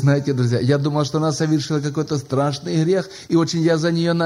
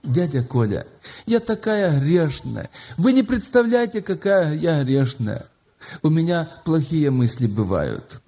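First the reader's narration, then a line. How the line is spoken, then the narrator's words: Sobbing. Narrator (Russian): всхлипывая, она говорит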